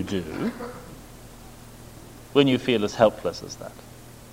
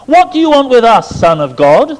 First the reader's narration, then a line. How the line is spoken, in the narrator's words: They shouted